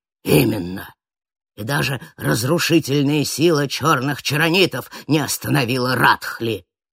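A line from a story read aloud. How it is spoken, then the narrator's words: Man's growl. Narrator (Russian): прорычал мужчина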